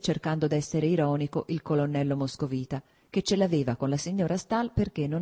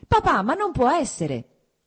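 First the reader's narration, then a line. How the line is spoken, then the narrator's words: Shouted. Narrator (Italian): gridò Kitty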